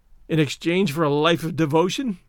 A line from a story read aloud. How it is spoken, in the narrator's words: sneered